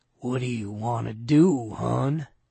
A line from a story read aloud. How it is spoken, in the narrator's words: he murmured softly